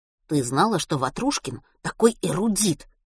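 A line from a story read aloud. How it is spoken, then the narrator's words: Whispered. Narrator (Russian): прошептал Матвей Милославе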